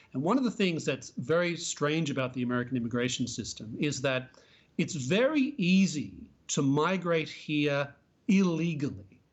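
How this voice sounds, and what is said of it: Non-native English accent. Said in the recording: “I'm an immigrant myself. You can probably tell by my, my accent.”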